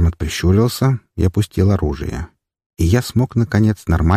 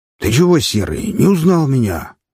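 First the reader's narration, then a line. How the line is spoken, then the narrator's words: Indignant exclamation. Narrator (Russian): с возмущением воскликнул гном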